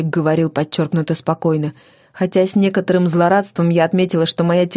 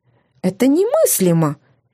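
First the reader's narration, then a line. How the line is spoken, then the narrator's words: Unexpectedly thin high voice. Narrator (Russian): Неожиданно тонким и высоким голосом заговорил он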